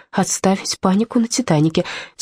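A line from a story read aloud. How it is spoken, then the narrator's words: Quiet. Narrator (Russian): тихонько сказала я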